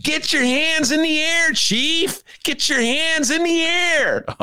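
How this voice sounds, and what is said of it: Imitates another person's voice. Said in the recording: “Can we hear that impression? ... It's a great impression. ... Jack Nicholson from what movie”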